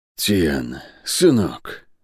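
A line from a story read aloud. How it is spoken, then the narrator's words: Hoarse, barely audible. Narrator (Russian): хрипло, чуть слышно говорил он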